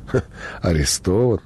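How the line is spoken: Fat man guffawing. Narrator (Russian): толстяк расхохотался

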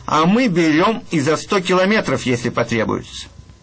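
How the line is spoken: Border guards, cheerful remark. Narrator (Russian): пограничники ему весело заметили

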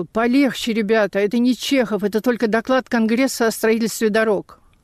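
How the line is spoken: Groaning. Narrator (Russian): наш венгр стонал

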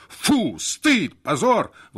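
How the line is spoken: Shouting in unison. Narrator (Russian): в один голос закричали Бернард и Надельсон

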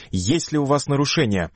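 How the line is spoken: Stern question. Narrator (Russian): Памфилова строго спрашивает

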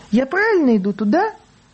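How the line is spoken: Joyful. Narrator (Russian): Баба радостно

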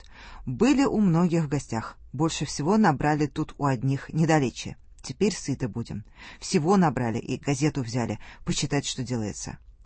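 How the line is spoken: Joyful announcement, several soldiers. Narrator (Russian): прежние солдаты радостным голосом объявляют

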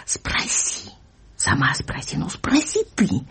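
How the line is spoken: Heated whisper. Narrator (Russian): горячий шепот ее и мамы

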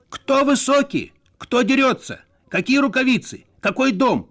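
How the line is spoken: Embarrassed, hurt shouting. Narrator (Russian): кричал Надельсон, смущенный и обиженный

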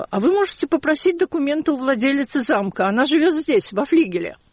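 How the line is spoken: Calm, cheerful female guide. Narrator (Russian): вдруг экскурсовод невозмутимо и даже весело сказала

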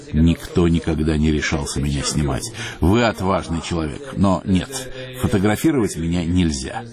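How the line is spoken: Laughing. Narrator (Russian): Он рассмеялся и сказал

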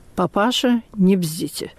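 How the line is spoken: Quiet, pointedly restrained. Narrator (Russian): он только сказал тихо и подчеркнуто сдержанно

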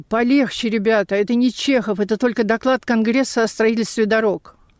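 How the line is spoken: Groaning. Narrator (Russian): наш венгр стонал

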